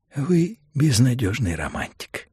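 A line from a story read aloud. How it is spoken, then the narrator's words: Plain. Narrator (Russian): сказал Фабер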